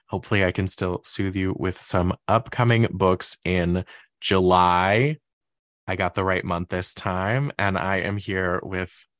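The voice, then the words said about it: Hoarse, stuffy voice. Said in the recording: “I sound a little hoarse ... little stuffy”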